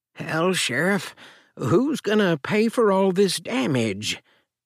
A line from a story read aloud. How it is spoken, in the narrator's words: grumbled